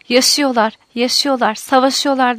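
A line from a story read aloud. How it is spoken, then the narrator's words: Cried out. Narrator (Turkish): diye haykırdı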